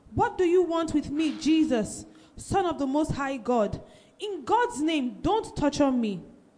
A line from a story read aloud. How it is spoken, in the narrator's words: He shouted at the top of his voice